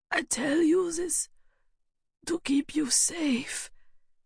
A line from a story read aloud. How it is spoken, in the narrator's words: said the woman, her voice a rattling whisper